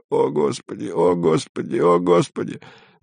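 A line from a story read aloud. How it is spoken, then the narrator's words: Monotonous moaning. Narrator (Russian): Кто-то однообразно стонал совсем рядом, приговаривая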